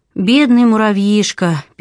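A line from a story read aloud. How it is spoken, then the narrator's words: Sad repetition. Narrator (Russian): печально повторила Сьюзен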